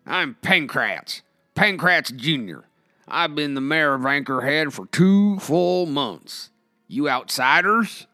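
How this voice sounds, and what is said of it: Unschooled cowboy drawl. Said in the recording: “unschooled drawl”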